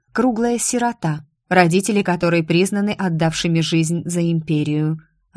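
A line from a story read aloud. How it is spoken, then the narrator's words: Plain. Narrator (Russian): ответила я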